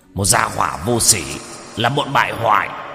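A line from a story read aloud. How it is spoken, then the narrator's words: Angry roar. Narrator (Vietnamese): Lưu tướng quân tức giận gầm lên một tiếng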